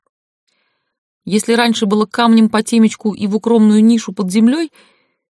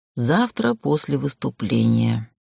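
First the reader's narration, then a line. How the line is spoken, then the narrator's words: Slow, low, hoarse drawl. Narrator (Russian): протянула я медленно, понизив голос до хрипоты, повторяя интонации Халлорана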